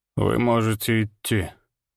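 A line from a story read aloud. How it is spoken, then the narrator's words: Weary. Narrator (Russian): устало барон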